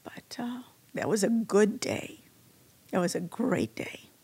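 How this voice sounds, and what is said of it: Emotional, choked-up voice. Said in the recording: “getting emotional”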